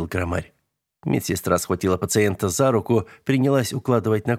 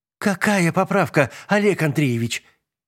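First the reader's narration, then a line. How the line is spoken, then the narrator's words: Exasperated exclamation. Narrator (Russian): в сердцах воскликнула медсестра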